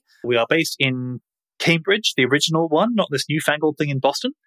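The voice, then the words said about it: British English accent. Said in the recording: “If you haven't guessed from my accent, we are based in the UK.”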